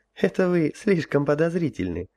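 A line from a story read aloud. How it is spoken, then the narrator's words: Empress laughing. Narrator (Russian): рассмеялась императрица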